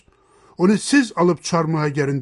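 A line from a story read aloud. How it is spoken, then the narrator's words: Plain. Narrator (Turkish): dedi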